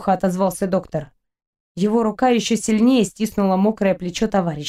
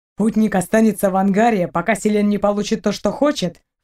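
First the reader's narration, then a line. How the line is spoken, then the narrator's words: Snorting. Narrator (Russian): фыркнул Торн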